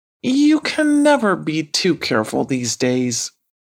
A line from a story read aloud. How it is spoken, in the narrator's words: sighed Leroy